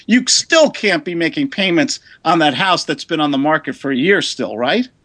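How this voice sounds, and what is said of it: New York City accent. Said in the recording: “the silly New York City accent”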